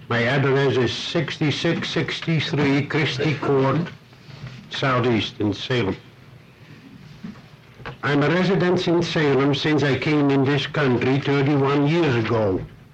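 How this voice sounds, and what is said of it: Slight foreign accent. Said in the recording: “Some of you might notice a slight accent”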